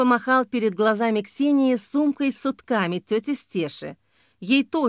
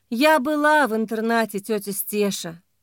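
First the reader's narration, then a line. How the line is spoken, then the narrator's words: Tired speech. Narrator (Russian): устало сказала Ксения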